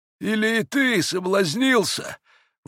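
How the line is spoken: Sudden exclamation. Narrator (Russian): воскликнул вдруг отец Паисий

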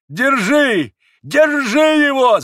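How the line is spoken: Screaming. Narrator (Russian): завопил он

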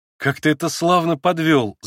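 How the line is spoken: Sudden laugh. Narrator (Russian): засмеялся вдруг Алеша

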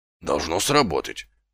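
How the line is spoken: Mutter. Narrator (Russian): пробормотал Колон

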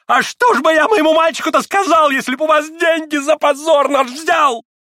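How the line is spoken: Crying, breaking rapid shout. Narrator (Russian): Плачущую, срывающуюся, захлебывающуюся скороговоркой прокричал

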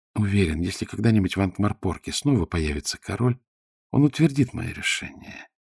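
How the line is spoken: Soft. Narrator (Russian): мягко сказал ветеринарий

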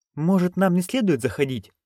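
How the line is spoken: Timid question. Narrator (Russian): робко осведомилась Маград

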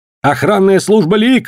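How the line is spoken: Shout. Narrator (Russian): выкрикнул Коллинз

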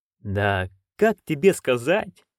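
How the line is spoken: Evasive drawl. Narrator (Russian): уклончиво протянул Хью

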